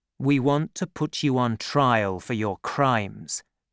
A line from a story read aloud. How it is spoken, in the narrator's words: said Athos